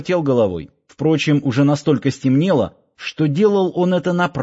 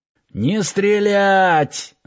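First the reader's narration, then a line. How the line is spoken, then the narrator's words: Yelling. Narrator (Russian): заорал Киркин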